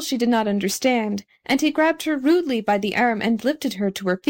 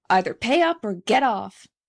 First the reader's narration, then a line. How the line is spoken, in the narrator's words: growled the conductor